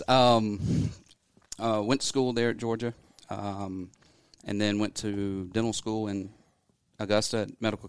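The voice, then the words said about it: Regional American accent. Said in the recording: “with that accent”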